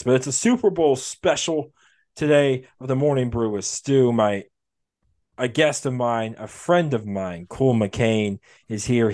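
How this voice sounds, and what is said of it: Slightly hoarse voice. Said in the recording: “If you can tell my voice, I'm a little hoarse today. I got a sore throat”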